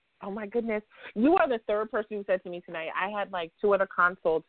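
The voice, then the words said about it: New York accent. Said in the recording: “my mom's from New York, so your accent is like home... it's a nice, pleasant accent”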